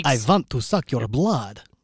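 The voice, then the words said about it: Vampire accent. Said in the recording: “That was a pretty good accent.”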